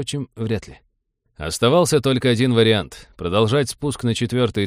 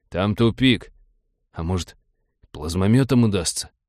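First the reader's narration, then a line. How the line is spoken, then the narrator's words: Cowed mumble. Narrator (Russian): тот съежился и промямлил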